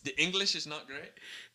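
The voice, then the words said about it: Put-on foreign accent. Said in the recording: “You don't have to do the accent... But you don't know what accent it is... It could be Russian... It's Bangladesh.”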